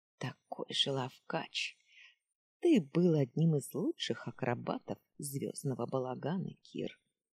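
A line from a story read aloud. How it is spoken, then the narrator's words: Smiling whisper. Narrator (Russian): Улыбаясь, прошептала она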